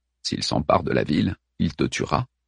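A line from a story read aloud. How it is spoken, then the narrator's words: Low voice. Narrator (French): dit-il à voix basse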